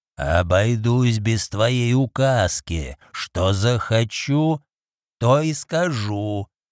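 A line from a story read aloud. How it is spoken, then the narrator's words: Furious hoarse rasp. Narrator (Russian): яростно прохрипел Люк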